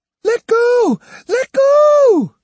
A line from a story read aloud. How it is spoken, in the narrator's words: she screamed